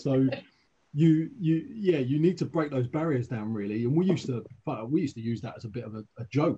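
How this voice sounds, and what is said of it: Southern English accent. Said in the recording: “with a southern accent ... I don't have a Midlands accent”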